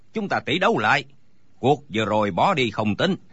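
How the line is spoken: Sudden shout. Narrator (Vietnamese): đột nhiên thấy Đinh Bất Tứ ngồi nhõm dậy la lên

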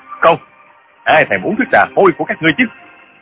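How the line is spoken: Angry shout. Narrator (Vietnamese): Trương Du Kỳ quát

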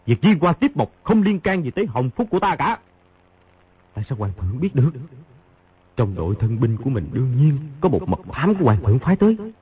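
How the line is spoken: Cold, huffing. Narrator (Vietnamese): Khang Hy hừ một tiếng, lạnh lùng nói

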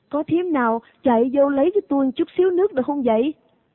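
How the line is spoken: Calling out. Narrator (Vietnamese): Hiền kêu lên

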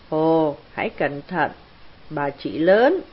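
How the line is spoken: Laughing loudly. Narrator (Vietnamese): Monique cười to

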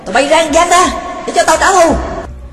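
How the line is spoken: Shouting. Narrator (Vietnamese): Nó hét bọn đánh giày

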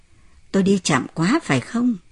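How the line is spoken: Embarrassed smiling speech. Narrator (Vietnamese): vợ ông cũng mỉm cười xấu hổ và nói

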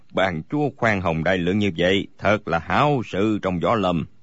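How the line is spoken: Smiling reply. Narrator (Vietnamese): Bối Hải Thạch mỉm cười đáp

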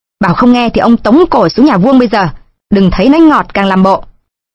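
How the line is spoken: Harsh shout. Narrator (Vietnamese): Cai lệ liền quát

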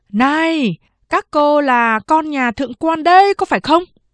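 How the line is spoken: Loud question. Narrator (Vietnamese): Anh ta lớn tiếng hỏi

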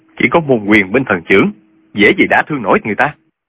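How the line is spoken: Cold. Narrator (Vietnamese): Trương Du Kỵ lạnh lùng nói

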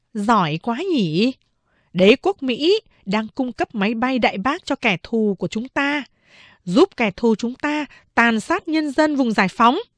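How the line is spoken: Sarcastic smiling remark. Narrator (Vietnamese): Chị phán đệ mỉm cười châm biếm, bảo với chị Sáu

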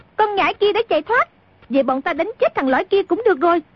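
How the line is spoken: Yelling. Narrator (Vietnamese): A Tử nghe tiếng chân Trung Linh đã đi xa, biết không đuổi kịp, bèn la lên

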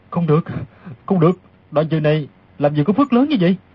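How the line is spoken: Muttered aloud. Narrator (Vietnamese): Đoàn Dự lẩm bẩm thành tiếng

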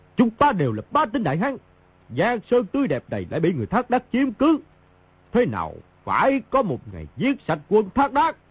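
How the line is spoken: Proud loud shout. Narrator (Vietnamese): Mao Thập Bát hiên ngang quát lớn

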